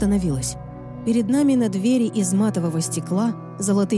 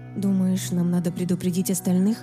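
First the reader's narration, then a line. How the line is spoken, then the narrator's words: Quiet question. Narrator (Russian): тихо спросила я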